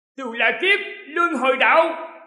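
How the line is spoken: Roaring. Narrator (Vietnamese): Nhị hoàng tử gầm lên

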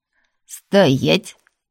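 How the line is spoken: Barked command. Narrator (Russian): рявкнул он

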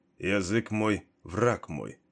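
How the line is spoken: Muttered. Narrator (Russian): пробормотал Кейн

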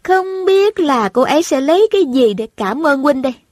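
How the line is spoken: Smiling voice. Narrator (Vietnamese): Thanh Thanh mỉm cười nói

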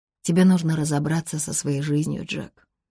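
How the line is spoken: Calm. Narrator (Russian): спокойно сказала Ребекка

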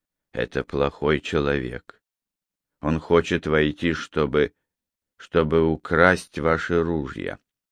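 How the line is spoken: Quiet, feigned fearful trembling. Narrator (Russian): Притворяясь, что его трясет от страха, тихо ответил

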